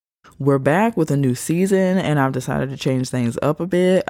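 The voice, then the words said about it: Voice a little different than normal. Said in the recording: “I hope my voice doesn't sound crazy because I think I'm kind of sort of catching a cold ... my voice is a little different than normal”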